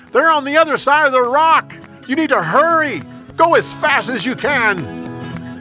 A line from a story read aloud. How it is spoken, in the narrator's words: Jonathan yelled